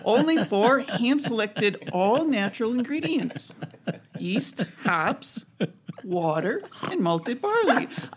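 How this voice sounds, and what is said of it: Slight Chicago accent. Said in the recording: “I think I just trended into Chicago a little bit there.”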